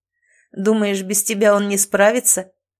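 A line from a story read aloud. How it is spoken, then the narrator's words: Chuckling. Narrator (Russian): хохотнул Ричлис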